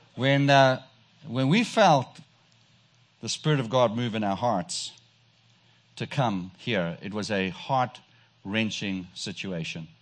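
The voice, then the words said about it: South African accent. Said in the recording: “you can tell I have a strange accent. ... But I was sent from South Africa”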